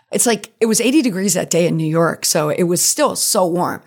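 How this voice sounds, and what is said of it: Creaky, worn-out voice. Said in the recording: “you can tell my voice is still kind of creaky from this whole week and the weekend in Times Square”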